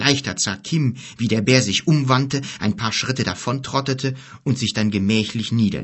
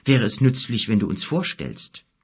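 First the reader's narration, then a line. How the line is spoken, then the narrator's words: Hesitant. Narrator (German): sagte Kim zögernd zu Gork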